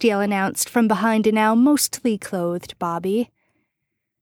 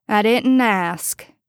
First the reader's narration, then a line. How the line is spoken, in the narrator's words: Bobby informed Castiel dryly